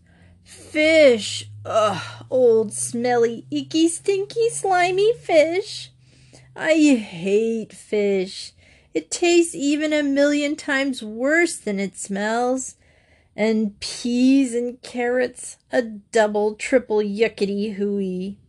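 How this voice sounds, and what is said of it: Loud whiny complaining child voice. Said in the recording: “whining and complaining in a loud voice”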